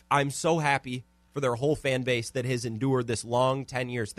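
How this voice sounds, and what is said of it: Sarcastic mock-emotional delivery. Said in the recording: “I'm trying not to cry ... I'm getting emotional ... Of course, I'm being sarcastic.”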